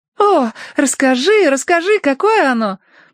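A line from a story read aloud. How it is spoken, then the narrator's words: Exclaimed. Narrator (Russian): воскликнула Цинни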